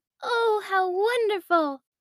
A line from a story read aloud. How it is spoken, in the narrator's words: Emma exclaimed